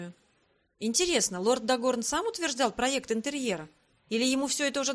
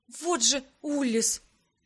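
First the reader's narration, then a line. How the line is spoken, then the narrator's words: Breathless exclamation. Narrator (Russian): выдохнула я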